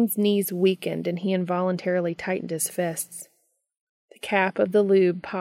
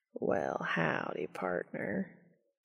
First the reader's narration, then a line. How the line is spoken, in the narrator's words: Cass drawled out